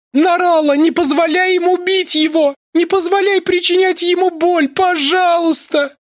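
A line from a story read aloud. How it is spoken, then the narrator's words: Sobbing. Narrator (Russian): Всхлипывала она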